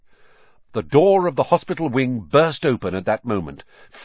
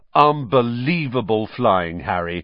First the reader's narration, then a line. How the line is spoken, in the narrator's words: said George